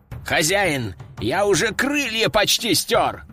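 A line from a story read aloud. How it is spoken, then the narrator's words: Wailing. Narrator (Russian): взвыл бедолага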